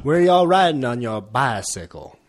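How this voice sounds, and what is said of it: Put-on Oregon drawl. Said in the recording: “That's the inflection, you know... Classic Oregon drawl.”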